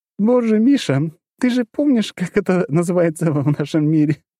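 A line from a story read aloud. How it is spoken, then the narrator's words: Laughing. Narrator (Russian): продолжала смеяться Лора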